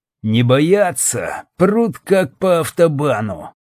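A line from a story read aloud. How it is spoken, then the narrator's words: Demon through gritted teeth. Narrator (Russian): процедил сквозь зубы бес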